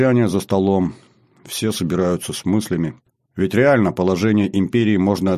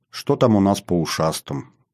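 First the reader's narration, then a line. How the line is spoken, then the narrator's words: Calmer, ruler speaking. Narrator (Russian): Уже более спокойно проговорил повелитель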